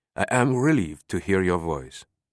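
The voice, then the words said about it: French accent. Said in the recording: “the teacher's familiar French accent said.”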